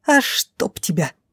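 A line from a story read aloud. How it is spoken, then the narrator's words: Hiss. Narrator (Russian): прошипела брюнетка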